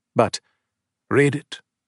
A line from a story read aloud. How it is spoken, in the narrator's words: his grandfather said, in that same tight, bland voice